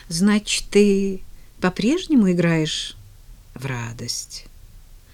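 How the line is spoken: Slightly uncertain. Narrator (Russian): немного неуверенно произнес он

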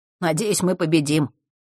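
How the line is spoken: Grumbling mutter. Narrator (Russian): пробурчал новый знакомый

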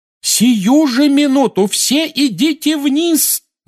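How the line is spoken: Screaming. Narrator (Russian): завопила миссис Уизли

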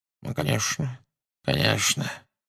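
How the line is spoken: Unsurprised mutter. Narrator (Russian): бормотал он, без малейшего удивления

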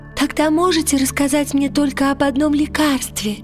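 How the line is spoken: Timid question. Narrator (Russian): робко спросила она

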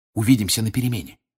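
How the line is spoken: Whispered. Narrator (Russian): шепнул Гарри Рону

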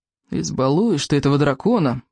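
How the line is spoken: Reproachful grumbling. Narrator (Russian): проворчал Рыбий Ног, укоризненно

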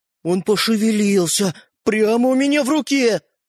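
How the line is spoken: Trembling voice. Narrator (Russian): Поддрагивающим голосом произнес Родька

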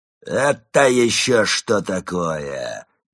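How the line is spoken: Menacing indignant bark. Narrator (Russian): грозно возмутился он и вдруг как рявкнул на зомби

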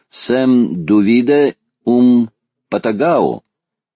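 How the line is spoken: Slow, teacherly. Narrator (Russian): сказал географ, произнося медленно, как учитель в классе, спросил патагонца

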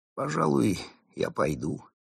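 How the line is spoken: Sad sigh. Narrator (Russian): Соглядатый печально вздохнул и сказал

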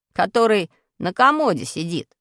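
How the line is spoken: Laughing. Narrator (Russian): засмеялся Пашка

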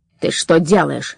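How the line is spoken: Barked. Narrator (Russian): рявкнул Кощей

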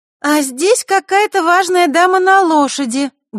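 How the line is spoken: Loud announcement. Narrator (Russian): громко объявила она

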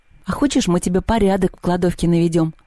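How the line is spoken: Plain. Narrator (Russian): спросила Люба

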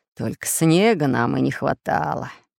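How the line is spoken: Grumbling pirate. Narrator (Russian): заворчал пират Буль-Буль

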